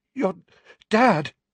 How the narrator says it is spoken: he panted, his chest heaving

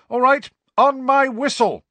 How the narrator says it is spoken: shouted Angelina

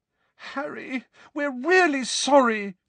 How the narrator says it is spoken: said Hermione desperately, her eyes now sparkling with tears

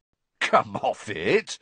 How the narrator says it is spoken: said Ron, starting to laugh

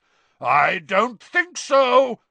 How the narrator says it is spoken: roared Moody

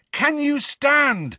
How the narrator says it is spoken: he bellowed in Neville's ear

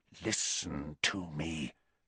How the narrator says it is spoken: said Snape, his voice so low now that Harry had to push his ear very hard against the keyhole to hear

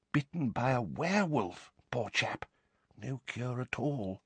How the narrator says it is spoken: he said, dropping his voice

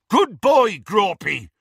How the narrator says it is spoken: he bellowed through the hole in the window

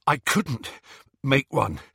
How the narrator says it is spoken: he panted

